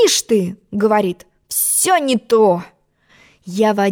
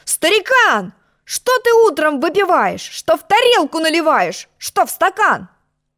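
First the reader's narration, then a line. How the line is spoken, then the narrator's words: Angry shout. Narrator (Russian): Я сердито закричал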